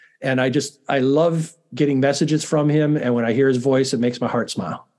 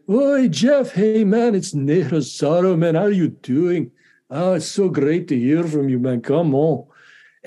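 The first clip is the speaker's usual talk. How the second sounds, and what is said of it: Impression of Ney Rosaro's accent. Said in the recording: “I like to do impressions ... I just love his accent and his whole affect, and it's so calming to me.”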